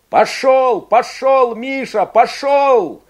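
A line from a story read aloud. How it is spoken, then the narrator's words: Shout. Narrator (Russian): кричал Игорь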